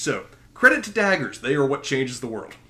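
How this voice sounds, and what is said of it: Heavily sarcastic delivery. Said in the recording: “you're being sarcastic ... There is some massive sarcasm here.”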